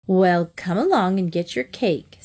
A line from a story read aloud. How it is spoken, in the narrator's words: said his mother